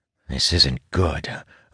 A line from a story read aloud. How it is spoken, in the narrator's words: I mutter